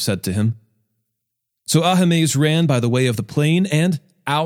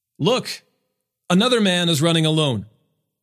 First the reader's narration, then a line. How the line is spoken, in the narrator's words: He called out to the gatekeeper